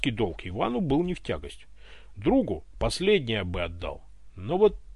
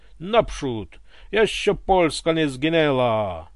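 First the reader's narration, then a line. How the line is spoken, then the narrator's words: Grumbling. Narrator (Russian): ворчал Иван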